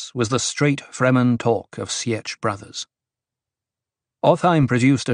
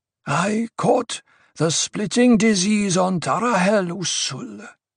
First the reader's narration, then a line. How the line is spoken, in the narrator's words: he wheezed